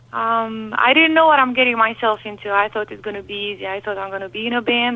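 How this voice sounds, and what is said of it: Romanian accent. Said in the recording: “As you can hear, I have an accent. So I came from Romania.”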